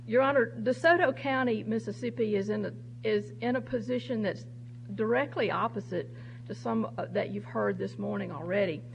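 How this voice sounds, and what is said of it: Southern US drawl. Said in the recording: “my southern drawl”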